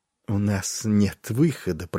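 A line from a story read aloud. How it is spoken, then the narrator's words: Muttering. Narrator (Russian): пробормотал Варис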